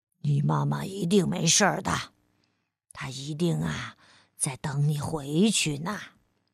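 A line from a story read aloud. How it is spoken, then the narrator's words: Gentle. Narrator (Chinese): 霸王龙温柔地说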